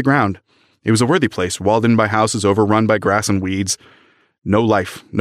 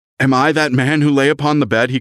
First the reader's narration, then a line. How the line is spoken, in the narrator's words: He cried